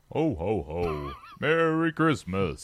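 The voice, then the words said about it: Jolly Santa Claus voice. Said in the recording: “let's hear your Santa accent ... So that's pretty good, right? Pretty typical.”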